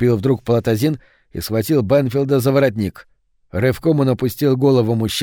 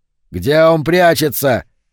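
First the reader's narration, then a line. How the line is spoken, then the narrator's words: Frenzied yell. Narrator (Russian): снова завопил Палатазин, безумный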